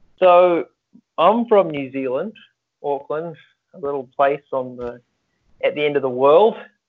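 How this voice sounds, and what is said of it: New Zealand accent. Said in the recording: “I love your accent.”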